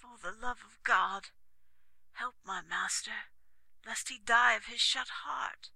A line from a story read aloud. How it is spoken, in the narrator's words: said weakly